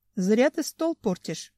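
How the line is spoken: Sighing. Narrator (Russian): вздохнул Бизон

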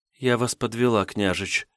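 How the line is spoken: Quiet, young woman. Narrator (Russian): тихо произнесла девушка

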